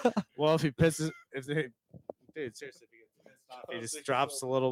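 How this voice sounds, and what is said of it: Usual voice. Nothing is said of it.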